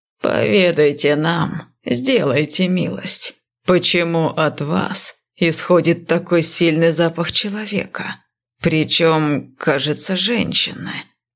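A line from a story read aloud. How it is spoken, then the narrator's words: Lazy question. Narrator (Russian): лениво спросил один из министров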